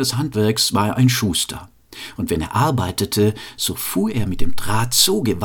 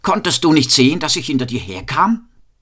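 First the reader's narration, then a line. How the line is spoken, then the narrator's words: Called out. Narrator (German): rief er ihr zu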